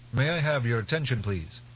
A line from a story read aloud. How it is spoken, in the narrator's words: Teg called out